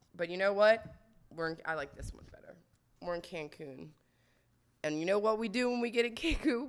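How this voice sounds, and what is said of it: Hoarse, strained, nearly lost voice. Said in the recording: “My fucking voice is going to be gone ... My voice is gone.”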